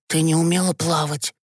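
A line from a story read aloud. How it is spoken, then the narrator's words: Whispered. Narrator (Russian): прошептал Гешка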